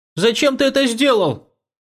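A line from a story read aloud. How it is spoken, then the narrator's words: Impatient shout. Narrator (Russian): выкрикнул Ичан, теряя терпение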